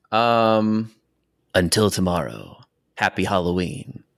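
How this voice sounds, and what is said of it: Low-effort Wolfman Jack radio DJ impression. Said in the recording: “doing your best impression of famous radio DJ Wolfman Jack ... I didn't see much effort in that”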